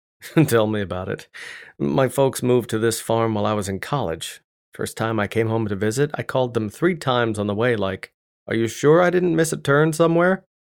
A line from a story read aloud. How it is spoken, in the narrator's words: laughed again, this time with a little more enthusiasm